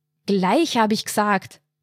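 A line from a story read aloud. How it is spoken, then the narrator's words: Roaring. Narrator (German): brüllte er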